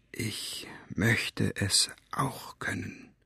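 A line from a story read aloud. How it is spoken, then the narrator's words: Very quiet repeated whisper. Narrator (German): flüsterte es seither ganz leise, aber immer wieder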